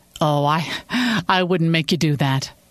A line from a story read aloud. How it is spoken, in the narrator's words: Sophie laughed